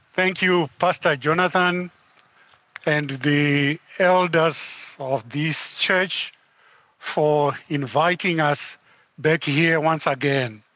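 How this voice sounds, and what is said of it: Heavy accent. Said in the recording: “the heavy accent”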